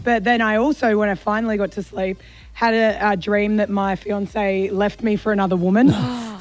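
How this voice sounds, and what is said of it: Hoarse, nearly lost voice. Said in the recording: “My voice is still gone.”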